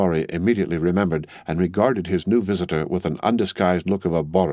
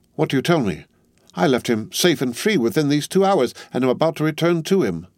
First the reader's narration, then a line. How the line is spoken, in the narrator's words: Struck with consternation, the old gentleman exclaimed